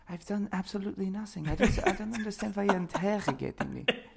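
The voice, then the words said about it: Put-on German accent. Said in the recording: “he has a way better German accent than I do”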